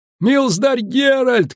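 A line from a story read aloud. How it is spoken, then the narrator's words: Shouting in ear. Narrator (Russian): кричал у него над ухом Гладыш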